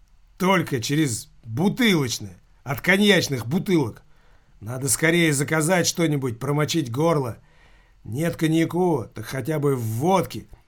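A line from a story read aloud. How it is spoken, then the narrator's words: Loud. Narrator (Russian): громко произнес Килькин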